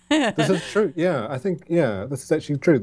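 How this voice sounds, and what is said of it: New Zealand accent, partly British-influenced. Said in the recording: “I love the New Zealand accent ... it's kind of got a bit mangled. I've lived in the UK for 9 years ... I'm somewhere in the middle”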